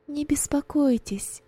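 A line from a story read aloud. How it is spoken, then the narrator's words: Plain. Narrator (Russian): ответила Роза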